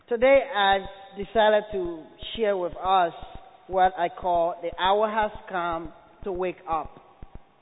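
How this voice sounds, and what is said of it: Liberian English accent. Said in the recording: “I am from Liberia ... you will have to listen carefully to hear me.”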